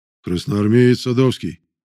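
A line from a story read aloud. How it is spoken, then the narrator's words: Deep bass voice. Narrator (Russian): пробасил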